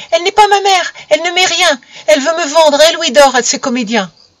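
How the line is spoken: Exclaiming. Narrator (French): s'écria Amy

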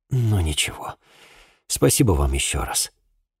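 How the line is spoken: Sighing. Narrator (Russian): вздохнув, сказал

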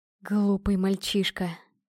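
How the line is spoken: Hissed. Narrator (Russian): прошипел он

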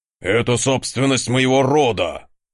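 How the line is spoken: Growl. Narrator (Russian): рыкнул ярл

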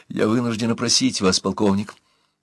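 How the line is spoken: Fast speech. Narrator (Russian): Быстро заговорила она

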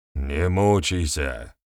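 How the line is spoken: Grumbled. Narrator (Russian): буркнул Вернедуб

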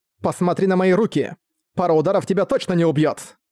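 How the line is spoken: Contemptuous snort. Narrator (Russian): Презрительно фыркнув, заявила девушка

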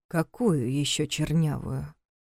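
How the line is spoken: Quiet, nearly threatening question. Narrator (Russian): Тихо, почти с угрозой, переспросил Гоша

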